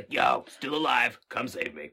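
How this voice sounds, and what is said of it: Imitates another person's Beetlejuice-style voice. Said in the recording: “That was a really good impression of, actually kind of Corey Feldman like doing his best Beetlejuice.”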